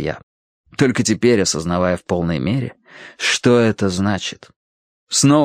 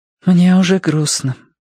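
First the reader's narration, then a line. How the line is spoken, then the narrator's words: Sighing. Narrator (Russian): вздохнула Верити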